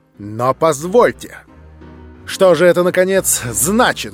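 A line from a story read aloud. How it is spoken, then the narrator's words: Loud speech. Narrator (Russian): громко заговорил он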